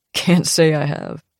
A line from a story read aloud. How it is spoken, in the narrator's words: says with a chuckle